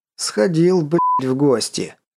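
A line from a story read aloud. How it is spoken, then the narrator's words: Unrestrained laughing. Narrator (Russian): Не сдержавшись, хохотнул Константин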